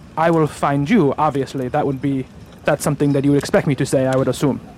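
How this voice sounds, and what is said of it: Vague put-on European accent. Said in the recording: “I'm a very mysterious type of figure. With a very vague European accent.”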